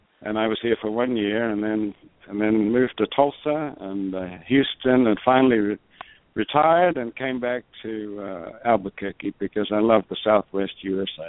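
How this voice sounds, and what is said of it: Australian accent. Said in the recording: “you have a Southern accent ... I'm from the South, the Deep South, but it's a very deep South in Australia.”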